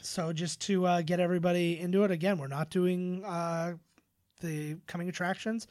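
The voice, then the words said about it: Strained, fading voice. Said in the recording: “I am legitimately losing my voice.”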